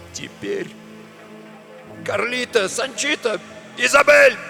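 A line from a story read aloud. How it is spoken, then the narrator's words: Loud barked shout. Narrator (Russian): гаркнул он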